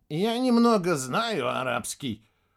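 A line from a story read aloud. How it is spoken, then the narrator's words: Absent-minded grumble. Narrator (Russian): проворчал Егор Ливонович рассеянно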